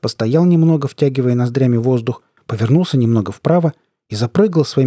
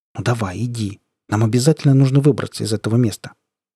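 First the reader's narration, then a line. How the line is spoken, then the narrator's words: Soft and quiet. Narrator (Russian): тихонько сказал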